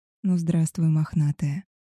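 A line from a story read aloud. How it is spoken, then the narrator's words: Soft, careful voice. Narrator (Russian): мягко произнес я, боясь спугнуть волчицу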